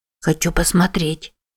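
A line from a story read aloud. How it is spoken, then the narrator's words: Girl whispering. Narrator (Russian): прошептала девочка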